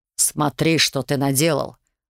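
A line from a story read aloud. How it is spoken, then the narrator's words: Growling. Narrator (Russian): рыкнул Эртон-старший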